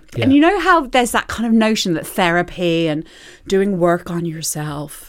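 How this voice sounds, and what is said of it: Bad put-on American accent. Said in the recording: “I just put on the shittest American accent ... Was it American? ... It was.”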